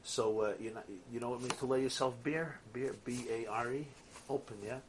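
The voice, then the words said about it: Brooklyn accent. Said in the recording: “Sorry for the Brooklyn accent.”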